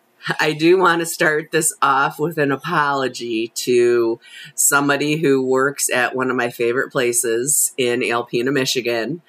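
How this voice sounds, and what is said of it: Slightly hoarse voice. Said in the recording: “I'm sounding a little hoarse because I took my first hit off my water pipe and holy shit, I hacked up a lung for about a half an hour”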